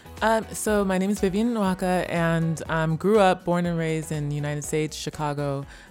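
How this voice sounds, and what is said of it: Slight American accent. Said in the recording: “I hear a little bit of an American accent.”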